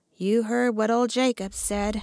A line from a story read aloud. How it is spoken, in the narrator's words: answered Buckner grimly